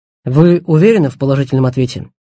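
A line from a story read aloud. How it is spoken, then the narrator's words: Plain. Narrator (Russian): спросил Станди Эстербота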